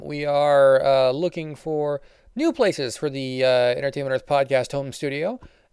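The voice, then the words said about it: Tired-sounding voice. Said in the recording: “I sound a little tired, that's because I am”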